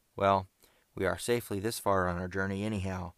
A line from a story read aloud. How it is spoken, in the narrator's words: cried Ned cheerily